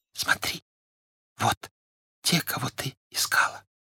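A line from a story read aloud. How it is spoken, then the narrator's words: Whisper. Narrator (Russian): он прошептал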